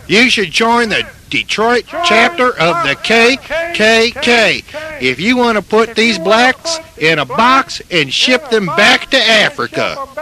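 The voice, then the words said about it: Southern US, Mississippi-like accent. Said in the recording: “got an accent like you're from Mississippi ... do you teach new people to talk like that?”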